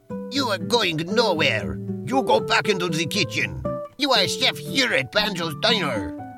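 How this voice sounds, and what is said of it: Bad put-on Russian accent. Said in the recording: “That is a Russian accent. ... No, that's definitely not a Russian accent. ... It's my best Russian accent. ... This is a horrible accent ... It's a very bad accent”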